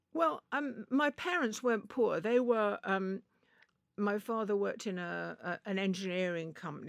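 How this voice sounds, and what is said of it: Posh English accent. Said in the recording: “you're very posh, a lovely voice, lovely accent.”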